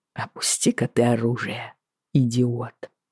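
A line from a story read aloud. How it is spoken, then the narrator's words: Almost gentle command. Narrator (Russian): почти ласково велел он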